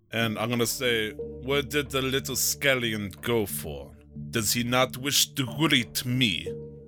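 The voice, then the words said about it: Character voice with an odd accent. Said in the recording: “your accent seems weird”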